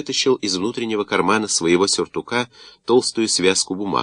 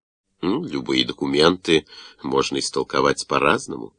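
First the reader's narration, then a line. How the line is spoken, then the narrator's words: Distrustful mutter. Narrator (Russian): недоверчиво пробормотал Пиа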